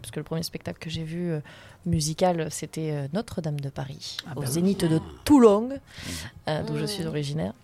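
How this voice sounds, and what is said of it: Toulon southern French accent. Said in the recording (French): “on sent l'accent de Toulonnais qui revient”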